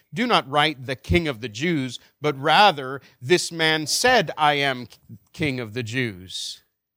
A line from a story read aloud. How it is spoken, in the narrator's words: Pilate answered